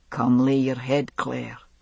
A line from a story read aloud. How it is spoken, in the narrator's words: he said quietly